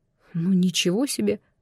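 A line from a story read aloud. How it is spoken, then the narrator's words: Surprised mutter. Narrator (Russian): пробормотал я, удивленный таким подходом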